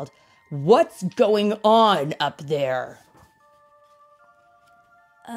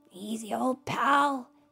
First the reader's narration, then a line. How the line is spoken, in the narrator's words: he whispered to the beast